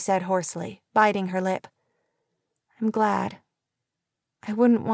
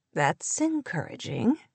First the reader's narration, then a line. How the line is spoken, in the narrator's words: he answered with a soft laugh